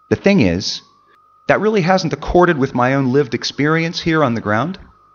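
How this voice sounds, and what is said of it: American English accent. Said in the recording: “someone who doesn't sound like they're from around here ... is that a bit of an accent I detect? ... American English”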